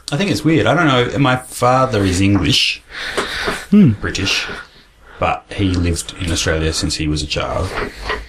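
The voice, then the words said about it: South Australian accent. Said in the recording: “you've got a South Australian accent.”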